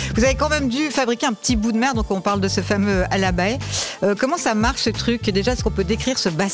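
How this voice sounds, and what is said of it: Usual voice. Nothing is said of it.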